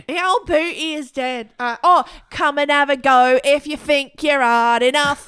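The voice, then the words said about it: Put-on Cockney English accent. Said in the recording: “I've got to practice my English accent ... Like a Cockney.”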